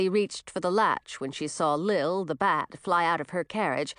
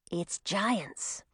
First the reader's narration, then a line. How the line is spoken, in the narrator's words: whispered Zoe